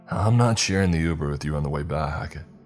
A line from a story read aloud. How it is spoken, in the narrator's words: I chuckled